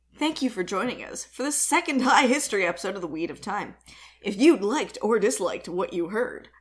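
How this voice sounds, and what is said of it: Announcer voice. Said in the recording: “I don't know why I'm doing the announcer voice ... You do it every time. It's ridiculous.”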